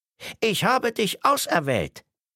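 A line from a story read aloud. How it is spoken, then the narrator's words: Excited lion. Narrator (German): Barthaare vibrierten aufgeregt, wenn der Löwe sprach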